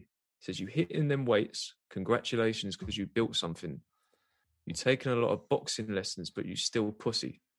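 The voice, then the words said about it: Slow, deliberate reading. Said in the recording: “I'm going to say it slowly.”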